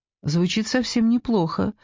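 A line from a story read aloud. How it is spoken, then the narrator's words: Calm. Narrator (Russian): сказала Ева, спокойно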